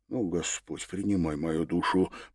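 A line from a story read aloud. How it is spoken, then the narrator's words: Whisper while galloping. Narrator (Russian): прошептал на скаку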